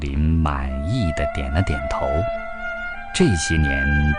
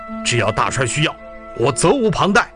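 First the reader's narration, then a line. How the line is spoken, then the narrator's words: Stern reply. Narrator (Chinese): 英才厉声回答道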